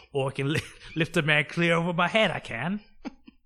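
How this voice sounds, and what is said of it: Put-on British accent. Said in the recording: “That's my British accent... It's the Dick Van Dyke”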